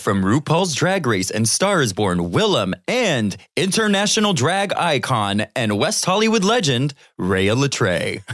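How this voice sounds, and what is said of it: Announcer-style voice. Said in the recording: “your announcer voice”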